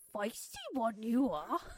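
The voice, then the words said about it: Yoda character voice. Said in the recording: “Yoda ... We're going to do our best impressions of each character.”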